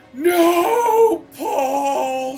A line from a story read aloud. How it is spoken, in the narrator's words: She screams